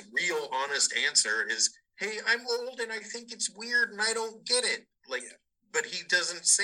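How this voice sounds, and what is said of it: Usual voice. Nothing is said of it.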